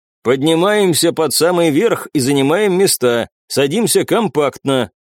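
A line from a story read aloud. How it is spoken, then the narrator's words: Loud clear command. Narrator (Russian): громко и четко скомандовал Анисим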